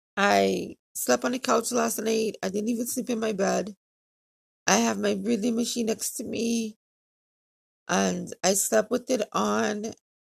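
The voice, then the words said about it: Tired, weak, dry-throated voice. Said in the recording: “I feel winded ... my throat is extremely dry ... I'm tired ... I just feel a little off ... if you hear it in my voice ... today I feel weak”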